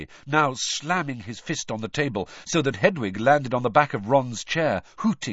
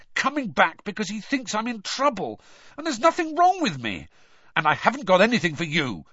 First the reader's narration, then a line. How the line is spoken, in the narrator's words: Harry snapped at Hedwig